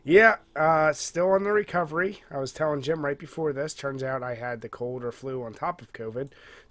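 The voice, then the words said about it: Congested, stuffy-nosed voice. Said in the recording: “as you can probably tell from my voice. Still congested as all hell.”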